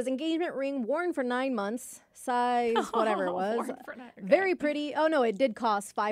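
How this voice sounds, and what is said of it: Usual voice. Nothing is said of it.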